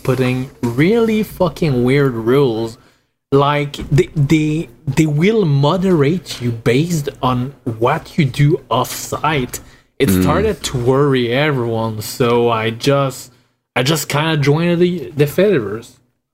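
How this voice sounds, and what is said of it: French-Canadian (Quebecois) accent. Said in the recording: “That's not a Canadian accent. Is that the French part of it? ... Quebecois?”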